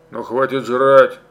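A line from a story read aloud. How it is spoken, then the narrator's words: Angry command. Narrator (Russian): сердито приказал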